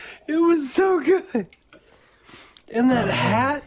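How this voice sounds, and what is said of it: Usual voice. Nothing is said of it.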